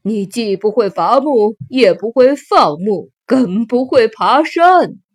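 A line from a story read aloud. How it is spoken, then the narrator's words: Mocking. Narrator (Chinese): 国王和大臣们也嘲笑她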